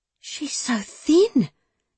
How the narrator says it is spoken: Bethan cried out in a loud whisper

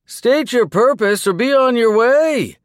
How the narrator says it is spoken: the guard shouted

